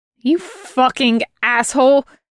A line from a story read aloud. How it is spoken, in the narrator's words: she hisses